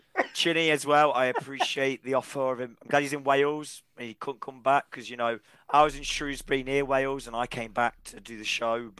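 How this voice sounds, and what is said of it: Damaged, struggling voice. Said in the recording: “If my voice was that bad that I literally couldn't speak ... if you've got through this with my voice”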